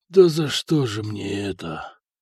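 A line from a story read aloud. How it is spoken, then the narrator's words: Stunned whisper. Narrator (Russian): прошептал ротный, который с трудом осознавал произошедшее на его глазах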